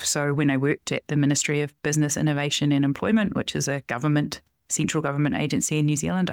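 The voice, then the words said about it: New Zealand accent. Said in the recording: “I'm from New Zealand. That's where this accent comes from.”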